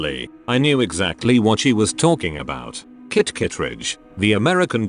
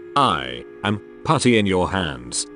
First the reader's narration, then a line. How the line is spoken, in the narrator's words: stammered